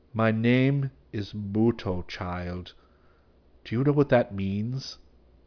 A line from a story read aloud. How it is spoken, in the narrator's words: stated slowly